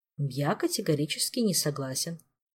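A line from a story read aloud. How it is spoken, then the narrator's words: Level, even voice. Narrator (Russian): ровным голосом сообщил Флавиус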